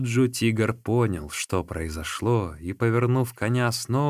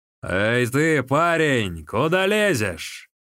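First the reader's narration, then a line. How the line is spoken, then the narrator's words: Thunderous shout. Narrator (Russian): Сунь Ли громовым голосом закричал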